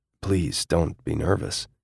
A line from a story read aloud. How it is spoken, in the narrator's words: his voice was hoarse when he said